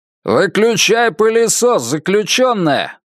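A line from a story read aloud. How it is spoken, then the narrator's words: Roaring. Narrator (Russian): проревел Тиг Мёрфи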